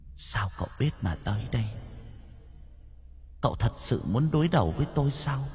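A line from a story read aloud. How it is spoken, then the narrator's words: Grim, gritted ghostly voice. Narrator (Vietnamese): Hồn ma âm trầm gằn giọng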